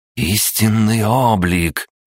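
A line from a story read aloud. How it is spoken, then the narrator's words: Growling young woman. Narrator (Russian): прорычала девушка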